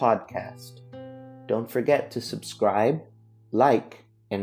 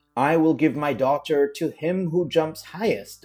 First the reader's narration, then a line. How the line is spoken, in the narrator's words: exclaimed the king